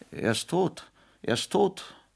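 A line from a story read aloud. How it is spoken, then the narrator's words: Choked tearful cry. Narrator (German): Paul ... brach in Tränen aus und rief mit erstickter Stimme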